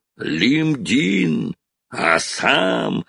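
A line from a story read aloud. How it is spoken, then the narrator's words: Roared. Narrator (Russian): он проревел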